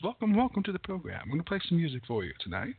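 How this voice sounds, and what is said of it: Calm NPR radio host voice. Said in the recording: “I'm going to kind of switch to my NPR voice.”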